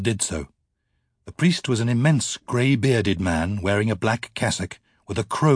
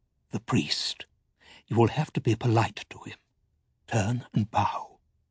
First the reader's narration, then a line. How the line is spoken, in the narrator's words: Balthamos said softly